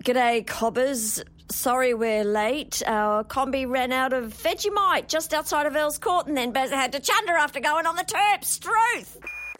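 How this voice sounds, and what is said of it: Exaggerated broad Ocker Australian accent. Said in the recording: “line readings of Anastasia Black putting on the Australian accent ... first she just kind of does it ... then they want it Aussier. She bungs on a bit of Suze Kennedy. That's not enough ... she's got to really go Ocker”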